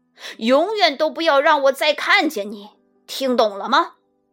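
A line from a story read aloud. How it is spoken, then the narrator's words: Roaring. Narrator (Chinese): 管理员开始咆哮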